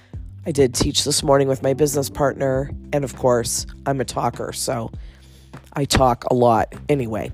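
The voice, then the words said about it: Froggy, hoarse voice. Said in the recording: “my voice sounds a little funky because of me getting over my cold ... my voice sounds froggy, especially at the end of the day”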